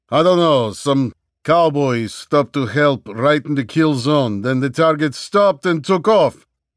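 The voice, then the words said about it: Thick Russian accent, exasperated. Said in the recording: “an exasperated answer in English with a thick Russian accent”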